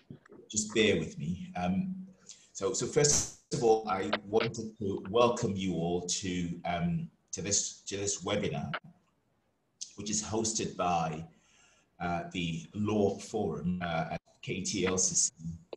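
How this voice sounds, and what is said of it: Hoarse voice from a cold. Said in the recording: “I'm struggling a little bit with my voice this morning. ... I've got a bad cold and a sore throat.”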